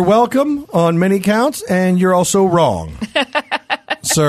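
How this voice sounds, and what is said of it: Usual voice. Nothing is said of it.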